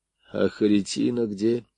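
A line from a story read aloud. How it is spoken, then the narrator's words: Weak voice, asking. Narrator (Russian): слабым голосом спросил Звонарев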